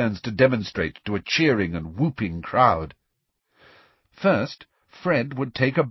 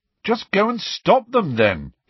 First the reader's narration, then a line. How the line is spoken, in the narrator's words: he said irritably